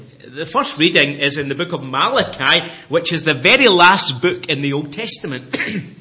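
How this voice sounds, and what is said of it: Speaks with a noticeable accent. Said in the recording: “hopefully my accent isn't too strong, that no interpreter is required”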